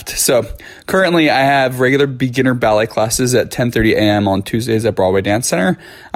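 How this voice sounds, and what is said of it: Mildly raspy voice. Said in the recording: “my voice is mildly raspy ... I'm probably going to sound like a raspy smoker's voice”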